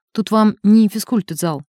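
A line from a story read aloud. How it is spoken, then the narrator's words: Gentle correction. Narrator (Russian): мягко поправил его доктор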